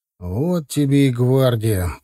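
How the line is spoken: Grumbling. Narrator (Russian): проворчал Алексей

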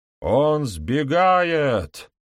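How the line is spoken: Yelled, lower voice. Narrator (Russian): фальшивый констебль заорал более низким голосом

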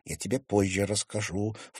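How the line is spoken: Low voice. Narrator (Russian): вполголоса произнесла Женя

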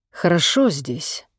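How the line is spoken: Quiet, sad voice. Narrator (Russian): сказал тихо и печально

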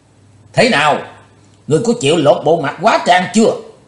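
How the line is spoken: Loud shout. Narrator (Vietnamese): Ông ta ... dở giọng quát lớn

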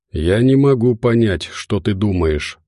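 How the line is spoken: Plain. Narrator (Russian): ответила она

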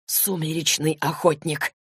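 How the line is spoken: Hissed. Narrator (Russian): зашипел он

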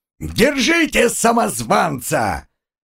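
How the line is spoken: Joyful yelling. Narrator (Russian): сам хозяин, который радостно заорал

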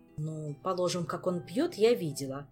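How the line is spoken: Sullen grumbling. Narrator (Russian): хмуро проворчала Кира

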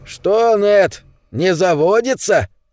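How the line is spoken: Shout. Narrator (Russian): крикнул ему Дон Мартин

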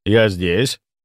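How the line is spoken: Calm. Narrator (Russian): спокойно сказал я

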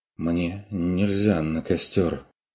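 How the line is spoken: Dazed mutter. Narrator (Russian): оторопело пробормотал сторож

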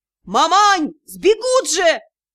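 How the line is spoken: Yelling at full voice. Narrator (Russian): во все горло орал Юрао

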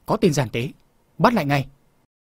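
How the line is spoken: Many voices shouting. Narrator (Vietnamese): Nhiều tiếng quát to

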